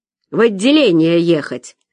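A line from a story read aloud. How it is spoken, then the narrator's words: Barking gruff shout. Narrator (Russian): рявкнул гаишник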